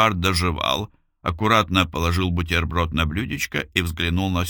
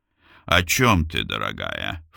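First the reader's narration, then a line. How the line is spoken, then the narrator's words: Ingratiating question. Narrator (Russian): вкрадчиво спросил он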